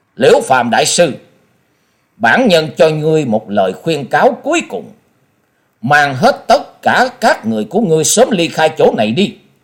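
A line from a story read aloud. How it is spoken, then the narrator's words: Stern. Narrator (Vietnamese): Quyết Ma Thiên Tôn nghiêm nghị nói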